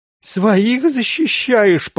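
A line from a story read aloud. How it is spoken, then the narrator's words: Sobbing. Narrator (Russian): прорыдал староста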